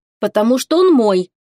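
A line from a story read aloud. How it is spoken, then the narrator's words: Snapping, masking fear. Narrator (Russian): огрызнулась она, пряча одолевавшие ее иногда страхи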